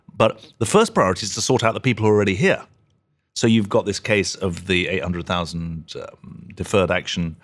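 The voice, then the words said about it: Non-American accent. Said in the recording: “you may have guessed from my accent, I'm not an American”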